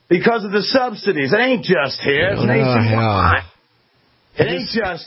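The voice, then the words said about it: Shifting put-on Southern accent. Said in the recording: “switching from North Georgia to Central Mississippi ... switch from regional accent to regional accent ... get your accent from Foghorn Leghorn”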